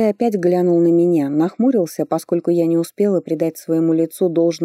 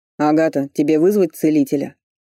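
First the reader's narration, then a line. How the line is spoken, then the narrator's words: Stern question. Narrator (Russian): строго спросил Фарлей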